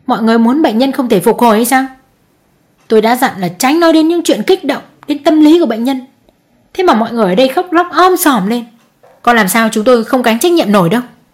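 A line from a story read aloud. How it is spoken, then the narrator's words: Irritated harsh. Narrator (Vietnamese): Bực tức, bác sĩ tỏ thái độ gay gắt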